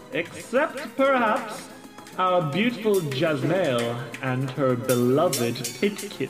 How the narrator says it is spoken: purrs

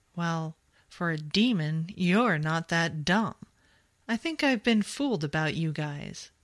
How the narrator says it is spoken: Jamie chuckled

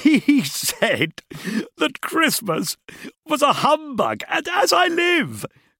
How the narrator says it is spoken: cried Scrooge's nephew

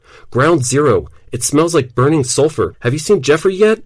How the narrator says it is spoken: she shouted into her phone

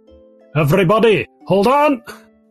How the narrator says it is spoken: Jibberstop shouts from the front

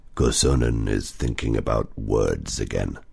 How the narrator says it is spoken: Otso growled

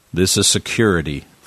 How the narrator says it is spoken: Frank said

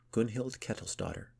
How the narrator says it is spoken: she said

